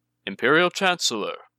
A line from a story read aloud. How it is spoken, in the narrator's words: Taka said, infusing his voice with a casual kindness as warm as Yoshi's smile and just as sincere